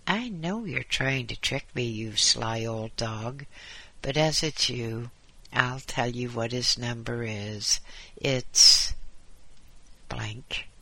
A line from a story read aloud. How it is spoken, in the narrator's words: The caretaker laughed and said